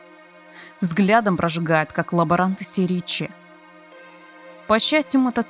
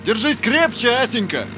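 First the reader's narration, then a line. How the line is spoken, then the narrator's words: Shout over engine noise. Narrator (Russian): крикнул сквозь рокот мотора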